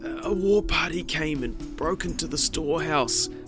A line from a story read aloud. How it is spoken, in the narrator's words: Hatupatu said in a weak voice